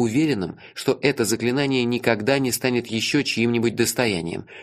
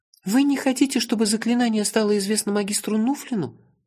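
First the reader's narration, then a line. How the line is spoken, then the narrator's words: Timid babble. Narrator (Russian): Наконец пролепетала Айса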